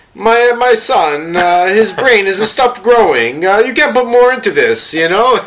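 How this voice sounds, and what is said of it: Convincing put-on Italian accent. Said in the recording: “That's a spot-on Italian accent.”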